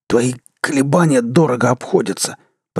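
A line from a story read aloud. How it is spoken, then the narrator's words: Hoarse rasp. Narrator (Russian): прохрипел Крис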